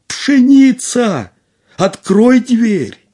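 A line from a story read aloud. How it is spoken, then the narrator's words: Slightly frightened shout. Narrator (Russian): Касим немного испугался, крикнул опять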